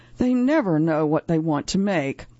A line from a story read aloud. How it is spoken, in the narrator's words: she lets out an exasperated sigh